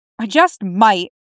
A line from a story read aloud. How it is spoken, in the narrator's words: Damien grumbles